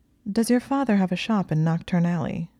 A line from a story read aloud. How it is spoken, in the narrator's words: she asked